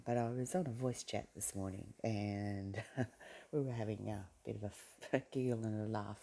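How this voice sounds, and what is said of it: Hoarse, strained voice. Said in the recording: “I've got laryngitis, as you can probably tell from my voice ... my voice sounds so crap”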